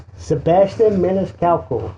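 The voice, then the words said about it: Put-on Sicilian Italian accent. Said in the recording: “Say it a little bit more with your Sicilian accent.”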